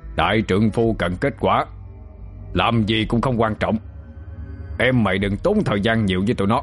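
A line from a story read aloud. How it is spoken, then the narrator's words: Harsh stressed voice. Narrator (Vietnamese): Đạt gằn giọng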